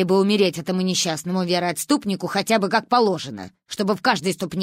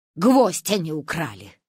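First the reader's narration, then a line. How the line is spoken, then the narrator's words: Snorting. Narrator (Russian): хмыкнула она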